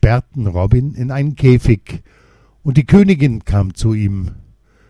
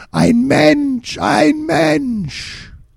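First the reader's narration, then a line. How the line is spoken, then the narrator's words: Creature screaming. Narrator (German): ein grün-schwarzes Wesen schrie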